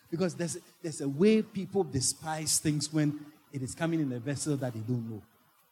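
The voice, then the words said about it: Foreign accent. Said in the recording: “Don't let my accent deceive you. Don't let my name that is foreign deceive you.”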